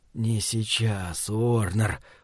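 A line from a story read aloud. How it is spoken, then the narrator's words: Hoarse wheeze. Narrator (Russian): прохрипел он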